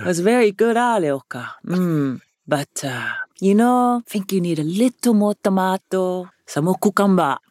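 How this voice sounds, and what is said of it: Put-on Samoan accent. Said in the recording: “I can't do my dad without doing a Samoan accent”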